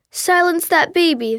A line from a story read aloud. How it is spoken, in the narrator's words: the man with red hair shouted